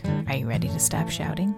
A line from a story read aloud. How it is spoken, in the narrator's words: gently ask